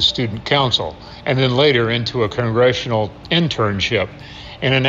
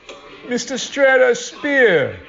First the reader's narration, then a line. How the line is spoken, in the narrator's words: he shouted in his hard-to-miss brogue